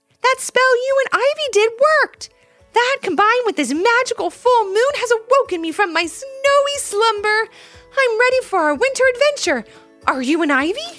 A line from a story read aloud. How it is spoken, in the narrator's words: Levi shouted in a whisper